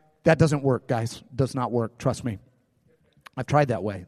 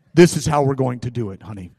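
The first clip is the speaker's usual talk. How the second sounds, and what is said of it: Mock deep commanding voice. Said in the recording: “we do it like that in our deep voice.”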